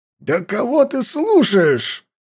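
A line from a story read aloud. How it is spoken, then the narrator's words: Old man's barely restrained fury. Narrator (Russian): рявкнул старик, еле сдерживая ярость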